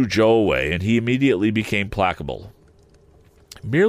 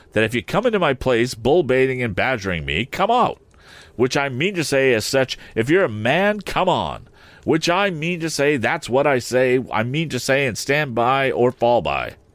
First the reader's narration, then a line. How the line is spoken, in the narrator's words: cried Joe